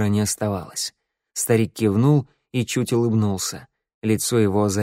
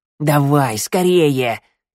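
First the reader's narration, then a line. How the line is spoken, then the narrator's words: Hoarse old man's wheeze. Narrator (Russian): засипел старик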